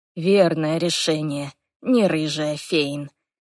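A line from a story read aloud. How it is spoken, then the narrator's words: Quiet amused voice. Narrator (Russian): он усмехнулся и негромко произнес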